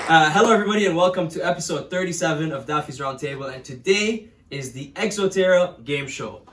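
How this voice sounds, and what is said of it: Painfully enthusiastic game show voice. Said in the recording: “the game show voice ... Painfully enthusiastic.”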